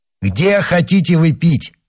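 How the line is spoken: Loud question. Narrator (Russian): спросил громко

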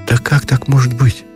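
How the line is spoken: Confused sigh. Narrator (Russian): не понимая, смутился и вздохнул Ушатиков

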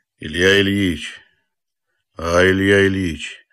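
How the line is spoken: Quiet. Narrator (Russian): начал он тихо

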